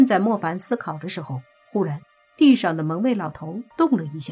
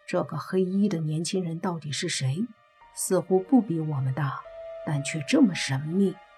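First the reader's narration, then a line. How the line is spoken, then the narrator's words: Low voice. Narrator (Chinese): 莫凡 低声说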